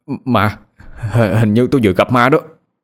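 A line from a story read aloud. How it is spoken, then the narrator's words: Trembling. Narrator (Vietnamese): A Thành đang run rẩy nói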